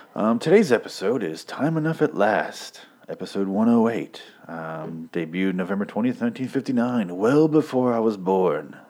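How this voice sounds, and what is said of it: Announcer voice. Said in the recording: “I'm doing my announcer voice.”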